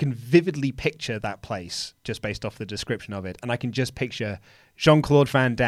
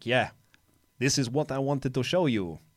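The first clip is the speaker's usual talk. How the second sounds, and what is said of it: Jean-Claude Van Damme impression. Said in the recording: “It's my John Claude Van Damme impersonation.”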